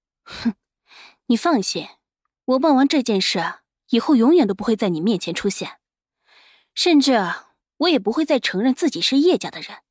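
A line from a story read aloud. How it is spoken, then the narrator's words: Cold sneer. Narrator (Chinese): 伊西斯冷冷一笑，说道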